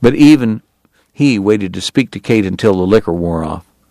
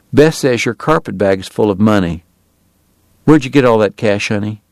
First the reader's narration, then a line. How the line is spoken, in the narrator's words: he said quietly